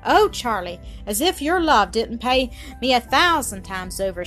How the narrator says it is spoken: exclaimed, dewy with mingled emotions, love, joy, and gratitude

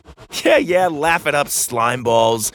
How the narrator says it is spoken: laughed

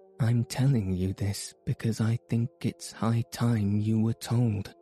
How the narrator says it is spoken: she said

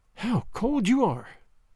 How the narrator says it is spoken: she sighed

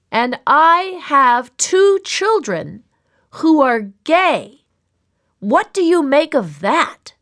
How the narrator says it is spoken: all of them hard of hearing, him shouting

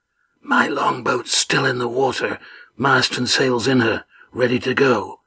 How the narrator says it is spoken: Adraman whispered

